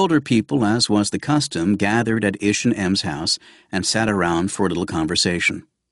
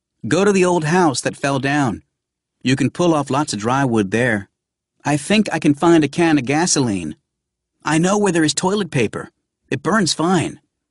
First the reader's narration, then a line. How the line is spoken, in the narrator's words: the children shouting out